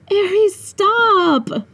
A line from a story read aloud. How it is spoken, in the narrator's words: I whined